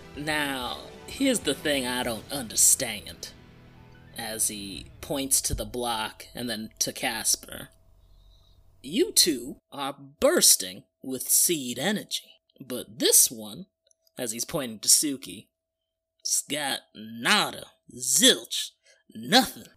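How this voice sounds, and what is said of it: Weird, distracting character accent. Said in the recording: “Why do you have that weird accent? It's really distracting.”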